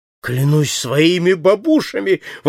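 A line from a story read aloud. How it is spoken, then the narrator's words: Exclaiming. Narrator (Russian): воскликнул Паспарту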